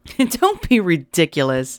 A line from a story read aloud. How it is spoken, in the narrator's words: laughed